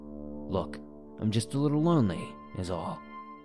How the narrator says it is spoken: Through gritted teeth, trying to mask his frustration, he said

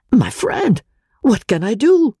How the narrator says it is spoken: cried the professor, piteously appealing to me

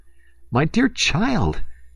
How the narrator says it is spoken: he cried in despair

